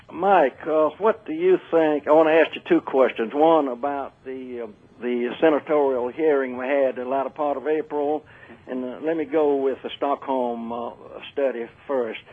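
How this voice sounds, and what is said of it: Thick Southern US accent. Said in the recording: “that southern accent sometimes gets a little thick”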